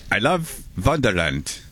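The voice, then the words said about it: Put-on Viking Norwegian-style accent. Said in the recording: “I'm trying to do a Viking accent... Sounds like a Viking, I think... It'd be like a Norwegian.”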